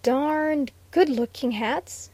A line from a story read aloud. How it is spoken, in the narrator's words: stammered